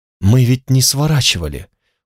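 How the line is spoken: Dejected voice. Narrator (Russian): упавшим голосом сказала Алана

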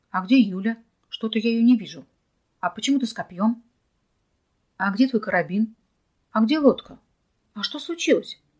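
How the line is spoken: Exasperated bark. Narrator (Russian): не выдержав его прямолинейного напора, рявкнул

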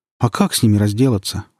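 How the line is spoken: Sighing. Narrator (Russian): вздохнул Сережа

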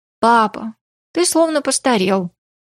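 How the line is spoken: Sighed. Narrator (Russian): вздохнула Ли

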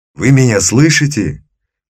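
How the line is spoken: Shouting into ear. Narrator (Russian): прокричать ему это еще раз в самое ухо

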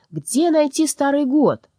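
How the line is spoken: Shouted into an ear. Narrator (Russian): Митя крикнул ей в ухо

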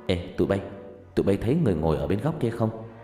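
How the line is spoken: Kid speaking very softly. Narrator (Vietnamese): có một đứa nói khe khẽ

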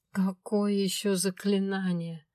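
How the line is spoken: Moaned in suffering. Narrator (Russian): страдальчески простонала я

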